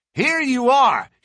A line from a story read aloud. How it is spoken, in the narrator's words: he cried